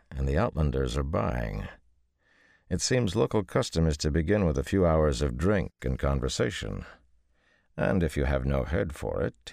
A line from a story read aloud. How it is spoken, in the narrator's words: he added dryly